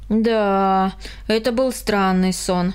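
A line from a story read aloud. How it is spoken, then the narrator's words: Sigh. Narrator (Russian): вздохнул Карл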